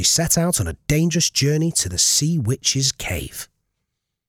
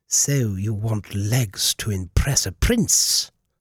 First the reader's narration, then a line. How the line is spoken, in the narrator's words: cackled